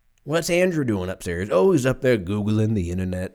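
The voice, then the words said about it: Old man voice. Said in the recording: “my dad in this scenario is like a 90-year-old man”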